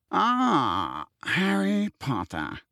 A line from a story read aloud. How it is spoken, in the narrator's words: a cool voice said